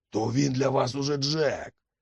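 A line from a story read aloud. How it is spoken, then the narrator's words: Young man's growl. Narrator (Ukrainian): загарчав молодик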